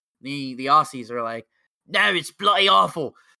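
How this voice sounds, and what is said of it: Fairly convincing put-on Australian accent. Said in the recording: “a better Aussie impression ... he pulls out the Aussie accent, which is actually was I thought was pretty solid”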